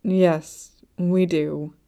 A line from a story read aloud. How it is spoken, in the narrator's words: Sighing, Shenzhenghao said